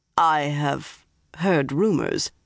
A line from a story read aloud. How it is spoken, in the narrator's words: Galad went on slowly